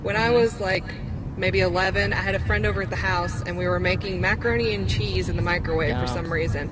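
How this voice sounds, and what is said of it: Southern Kentucky twang. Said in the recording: “from Kentucky, so hopefully I have a southern twang”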